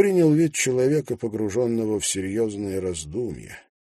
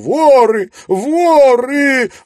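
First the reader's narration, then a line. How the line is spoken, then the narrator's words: Sudden terrified yelling. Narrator (Russian): Внезапно она перепуганно заорала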